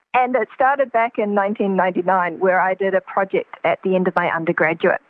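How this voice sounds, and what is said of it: New Zealand accent. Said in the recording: “It comes from my background in New Zealand. You might have caught the accent by now.”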